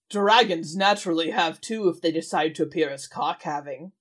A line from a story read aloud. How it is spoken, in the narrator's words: Moitu growled